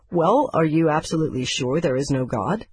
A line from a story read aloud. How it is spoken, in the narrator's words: I asked him